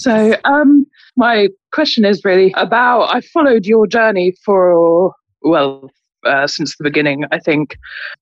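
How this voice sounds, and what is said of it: British accent. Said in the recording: “And you have an accent... I'm from UK.”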